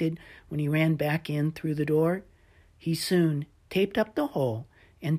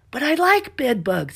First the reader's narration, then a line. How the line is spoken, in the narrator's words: Stella shouted